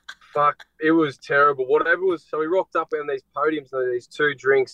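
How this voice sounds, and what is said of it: Noticeable accent. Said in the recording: “It sounds different with your accent”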